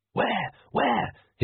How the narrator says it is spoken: hissed Magrat

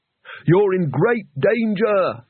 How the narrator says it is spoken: shouted Rincewind

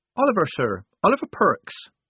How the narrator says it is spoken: said Polly

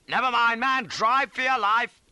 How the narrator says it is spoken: shouted, cries

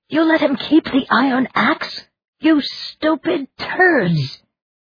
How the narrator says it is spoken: their leader screeched

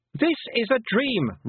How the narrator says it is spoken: Roland shouted, but it was louder now because he was catching her up

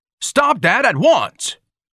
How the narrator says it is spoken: Ignatius bellowed

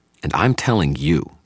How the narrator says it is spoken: the young man snarled in a muted voice

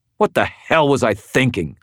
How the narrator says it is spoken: I snarled

